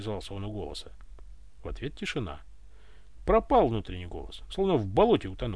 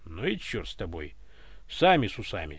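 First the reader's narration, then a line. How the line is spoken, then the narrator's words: Offended bark. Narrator (Russian): рявкнул обиженно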